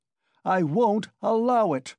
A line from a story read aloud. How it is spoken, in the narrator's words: Raskolnikov shouted again